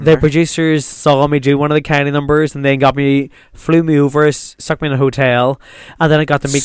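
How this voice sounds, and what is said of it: Northern Irish Lurgan accent. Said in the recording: “you were giving me that Lurgan accent”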